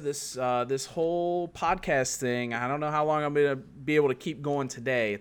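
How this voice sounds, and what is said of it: Rough, congested sick voice. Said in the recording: “I'm a little bit under the weather ... My voice is a little rocky ... Little snotty”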